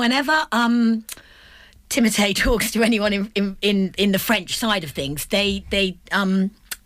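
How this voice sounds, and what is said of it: Usual voice. Nothing is said of it.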